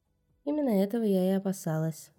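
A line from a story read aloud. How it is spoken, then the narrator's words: Cold. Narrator (Russian): холодно ответила жрица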